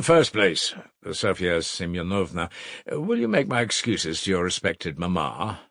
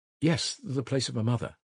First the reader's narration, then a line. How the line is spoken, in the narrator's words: Sonya answered timidly and hurriedly